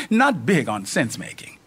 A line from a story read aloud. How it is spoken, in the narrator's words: Izzy chuckles